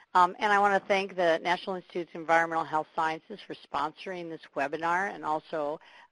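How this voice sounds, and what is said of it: Scratchy voice from a cold. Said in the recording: “Please excuse my scratchy voice. ... I have a little bit of a cold”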